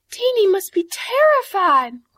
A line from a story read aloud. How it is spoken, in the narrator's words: cried her mother